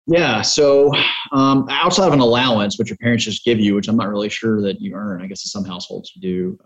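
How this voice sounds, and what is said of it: Mississippi Louisiana Southern accent. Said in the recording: “I hear the Mississippi, Louisiana accent.”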